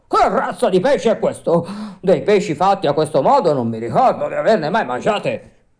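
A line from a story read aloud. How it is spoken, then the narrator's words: Amazed, half-frightened shout. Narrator (Italian): il pescatore dalla meraviglia gridando quasi impaurito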